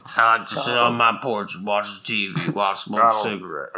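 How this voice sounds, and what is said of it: Put-on Southern character voice. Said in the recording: “It's hard to do an accent doing that voice. ... So what I'm hearing is he's from the South.”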